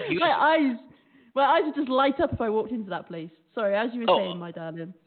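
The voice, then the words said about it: British accent. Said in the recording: “It's that accent. It's a British accent”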